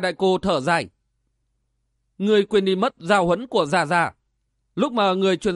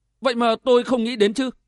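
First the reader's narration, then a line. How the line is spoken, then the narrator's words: Sudden realization exclamation. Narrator (Vietnamese): Hoa Tiểu Ngọc chợt tỉnh ngộ kêu lên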